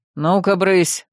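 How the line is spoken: Stern command. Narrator (Russian): строго приказал князь

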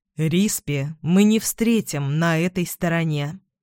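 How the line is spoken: Plain. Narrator (Russian): сказал он

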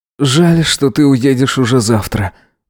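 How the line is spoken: Sighing. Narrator (Russian): вздохнул Эзра

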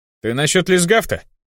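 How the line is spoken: Smirking grunt. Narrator (Russian): хмыкнул Хелфиш

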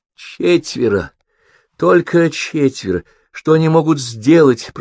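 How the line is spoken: Moaning. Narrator (Russian): простонала Фелисия

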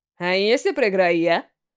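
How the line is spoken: Mocking. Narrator (Russian): Насмешливо осведомился Рико

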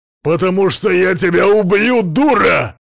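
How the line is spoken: Yelled. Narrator (Russian): Заорал он

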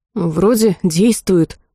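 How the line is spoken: Breathy exhale. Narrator (Russian): выдохнула я

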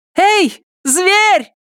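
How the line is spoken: Female yell. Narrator (Russian): заорала она

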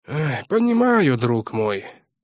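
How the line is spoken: Sighing. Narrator (Russian): вздохнул Городницкий

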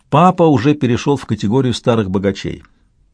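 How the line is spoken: Plain. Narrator (Russian): сказала Натали

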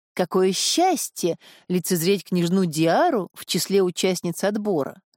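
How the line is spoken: Joyful exclamation. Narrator (Russian): Исидор радостно воскликнув

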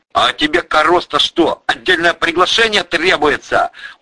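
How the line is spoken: Sharp shout. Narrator (Russian): прикрикнул

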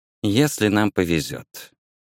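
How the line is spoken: Soft repetition. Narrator (Russian): мягко повторила она

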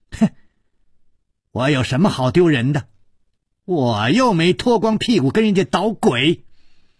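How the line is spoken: Loud, angry shouting. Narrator (Chinese): 薛红红大声地叫着

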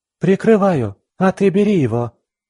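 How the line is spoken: Shout. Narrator (Russian): крикнула

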